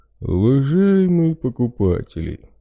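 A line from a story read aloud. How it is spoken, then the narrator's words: Booming bass voice. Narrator (Russian): зычно пробасил медведь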